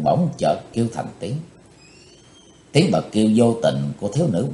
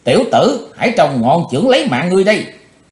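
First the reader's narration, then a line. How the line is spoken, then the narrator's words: Sudden loud shout. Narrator (Vietnamese): Cái thế hồng bỗng quát lớn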